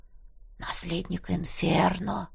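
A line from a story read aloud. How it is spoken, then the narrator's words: Reverent whisper. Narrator (Russian): прошептал демон так, словно говорил о боге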